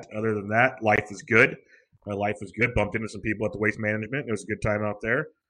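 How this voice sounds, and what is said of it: Rough, hoarse voice from cold. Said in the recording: “battling a little bit of a throat cold, like cough thing ... I sound a little rough”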